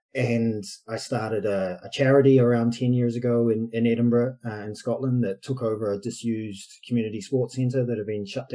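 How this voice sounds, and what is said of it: New Zealand accent. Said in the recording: “my dodgy accent... I'm from New Zealand originally, been in the UK for too long”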